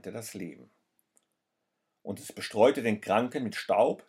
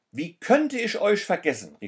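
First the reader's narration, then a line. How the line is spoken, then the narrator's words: Man exclaiming. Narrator (German): rief der Mann aus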